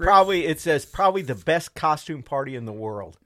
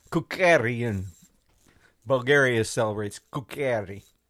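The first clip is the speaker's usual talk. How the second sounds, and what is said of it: Put-on Bulgarian accent. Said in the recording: “Is that a Bulgarian accent you're using there?”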